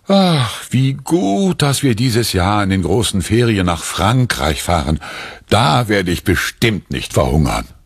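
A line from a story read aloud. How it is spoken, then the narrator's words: Relieved sigh. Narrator (German): Erleichtert seufzt Papa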